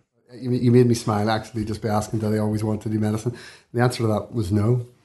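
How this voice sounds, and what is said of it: Belfast accent. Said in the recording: “I'm from Belfast, you can probably tell from my voice”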